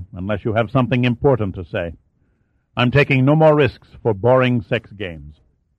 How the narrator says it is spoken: went on icily

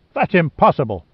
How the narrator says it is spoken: Sandecker snapped

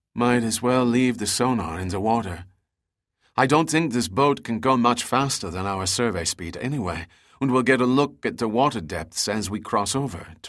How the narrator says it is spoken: Teresa said

